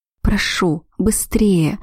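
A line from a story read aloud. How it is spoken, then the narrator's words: Desperate moan. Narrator (Russian): простонала я, не в силах терпеть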